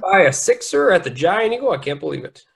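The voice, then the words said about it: Put-on Pittsburgh Yinzer accent. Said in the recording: “that's Pittsburghese. Yinzer speak, and it's simplest, crudest form. I'm not fluent, but I can wing it.”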